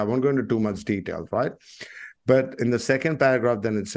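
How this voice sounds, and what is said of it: Usual voice. Nothing is said of it.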